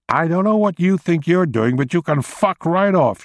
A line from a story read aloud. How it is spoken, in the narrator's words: she yelled